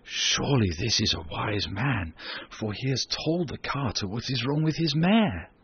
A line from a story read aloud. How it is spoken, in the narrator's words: the people who heard him whispered together and said